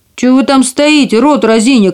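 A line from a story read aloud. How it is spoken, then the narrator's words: Furious shout. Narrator (Russian): крикнул карлик, и его землистое лицо побагровело от злости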